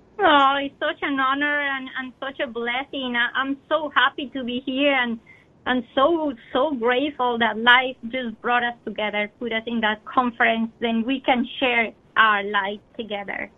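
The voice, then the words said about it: Slight Colombian Spanish accent. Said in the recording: “has a bit of an accent, if you might have noticed. She was born in Colombia”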